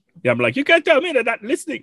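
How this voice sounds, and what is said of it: Odd put-on accent. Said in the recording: “I don't know why I did that accent. That was weird. I don't know what that was.”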